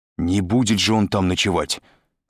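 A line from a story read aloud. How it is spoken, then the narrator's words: Irritated. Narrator (Russian): раздраженно сказал Андрей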